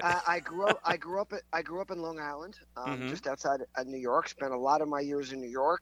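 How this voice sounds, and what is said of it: Slight New York accent. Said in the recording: “So you're New York. I could tell by the accent just a little bit.”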